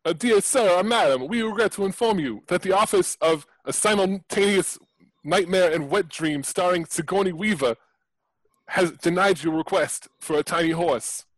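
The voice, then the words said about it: Italian accent drifting to New Jersey. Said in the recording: “your accent is Italian ... It went from like Italy Italian to like New Jersey Italian. ... I thought it was Christopher Walken.”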